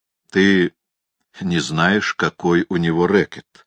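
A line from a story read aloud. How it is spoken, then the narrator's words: Plain. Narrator (Russian): сказал я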